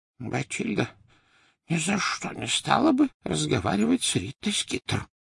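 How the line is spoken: Whisper. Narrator (Russian): прошептал Дош

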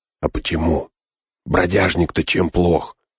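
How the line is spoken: Indignant whisper. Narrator (Russian): шепотом возмутился Пин

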